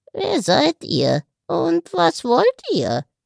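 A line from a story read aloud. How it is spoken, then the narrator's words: Rasping voice. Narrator (German): fragte es mit einer schnarrenden Stimme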